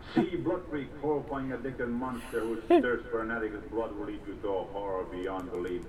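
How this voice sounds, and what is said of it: Thick accent, echoey narration. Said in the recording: “Narrator with a thick accent. ... Echoey.”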